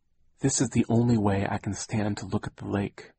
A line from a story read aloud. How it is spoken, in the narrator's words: Aunt Josephine said in a quiet voice